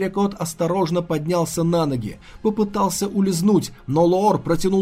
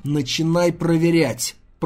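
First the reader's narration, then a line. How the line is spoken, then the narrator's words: Through gritted teeth. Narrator (Russian): процедил он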